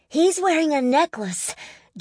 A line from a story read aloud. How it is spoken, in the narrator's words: Jeremy blurted loudly